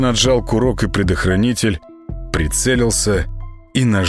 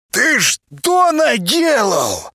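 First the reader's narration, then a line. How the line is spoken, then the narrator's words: Yelling. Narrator (Russian): Зайка орал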